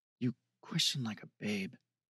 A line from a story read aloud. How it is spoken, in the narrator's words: she muttered